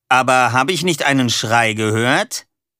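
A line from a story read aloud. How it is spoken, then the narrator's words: Loud. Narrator (German): sagte er laut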